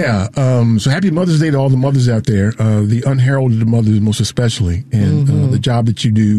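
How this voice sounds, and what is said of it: Usual voice. Nothing is said of it.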